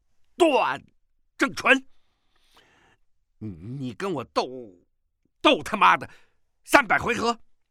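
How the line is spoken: Frustrated loud shout. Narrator (Chinese): 钟万愁一口气无处可出，大声喝道

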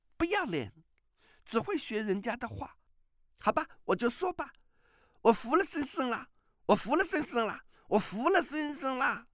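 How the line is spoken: Weak, laughing. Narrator (Chinese): 那少女 反觉全身酸软，连脚下也没了力气，笑道

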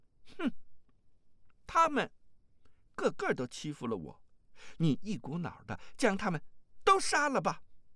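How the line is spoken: Cold sneer. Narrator (Chinese): 阿紫冷笑一声，说道

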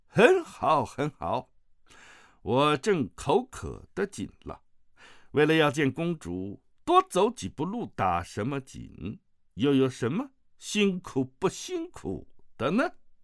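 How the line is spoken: Hearty laughter. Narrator (Chinese): 大笑声中

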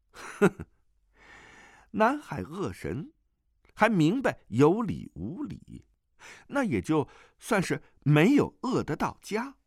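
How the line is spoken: Laughing. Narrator (Chinese): 段誉笑道

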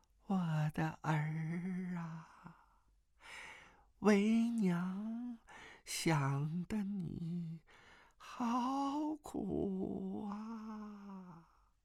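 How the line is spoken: Faint distant calling. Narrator (Chinese): 那声音仍是若有若无的叫道

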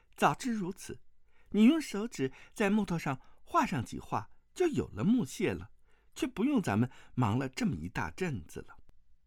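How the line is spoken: Laughing. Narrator (Chinese): 钟灵笑道

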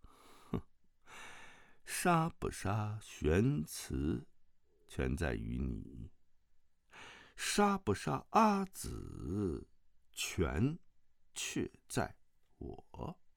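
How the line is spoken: Flat calm. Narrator (Chinese): 丁春秋淡淡地说

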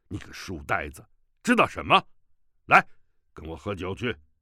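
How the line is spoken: Angry. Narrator (Chinese): 乔峰怒道

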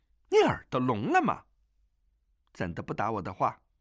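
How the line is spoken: Angry young woman. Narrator (Chinese): 那女郎怒道

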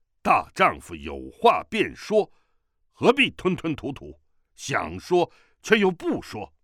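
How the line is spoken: Loud, suspicious. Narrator (Chinese): 乔峰满腹疑云，大声道

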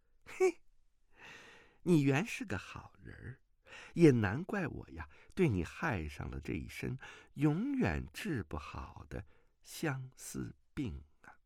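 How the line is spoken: Sneering laugh. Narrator (Chinese): 马夫人嗤的一笑，说道

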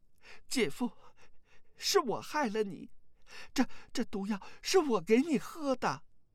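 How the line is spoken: Shocked, remorseful sobbing. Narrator (Chinese): 阿紫是又惊又悔，哭道

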